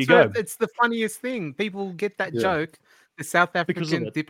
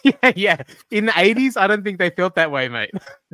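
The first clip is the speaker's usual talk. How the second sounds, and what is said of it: Fake South African accent. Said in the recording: “Fake South African accent.”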